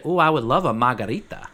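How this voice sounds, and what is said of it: Put-on Italian-sounding accent. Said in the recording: “That sounded so Italian when you said margarita.”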